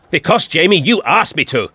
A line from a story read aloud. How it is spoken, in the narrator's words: shouted the doctor